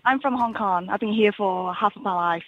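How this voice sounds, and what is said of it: Cantonese-accented English. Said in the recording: “It's a lovely accent. ... That sounds like a Cantonese accent. ... That is a Cantonese accent.”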